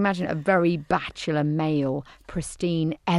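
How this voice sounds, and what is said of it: Usual voice. Nothing is said of it.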